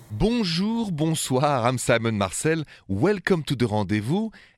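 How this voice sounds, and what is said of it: French accent. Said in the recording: “my accent is French. Straight from Paris”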